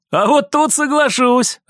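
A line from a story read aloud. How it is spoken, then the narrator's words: Laughing man. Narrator (Russian): рассмеялся мужчина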